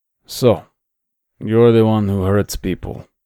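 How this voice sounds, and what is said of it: Eastern European accented male voice. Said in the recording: “in an Eastern European accent”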